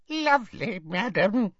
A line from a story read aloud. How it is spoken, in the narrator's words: squeaked Hokey